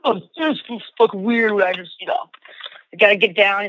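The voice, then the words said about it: Impression of a friend's voice. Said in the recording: “that's a good impression of Ray”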